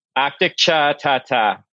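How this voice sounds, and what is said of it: Exaggerated Massachusetts accent. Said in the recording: “the best dish you could ever say in a mass hole accent”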